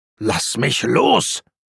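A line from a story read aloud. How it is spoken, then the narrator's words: Snarling. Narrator (German): fauchte Zweiton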